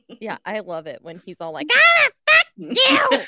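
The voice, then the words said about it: Yelled, squeaky imitation of another person. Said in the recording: “It's funny when I yell ... how squeaky your voice got there ... It's a pretty good impression.”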